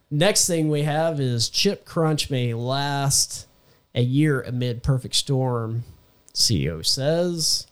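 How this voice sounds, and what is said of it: Congested, altered voice. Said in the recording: “my voice is a little bit different today because... I have a sinus infection”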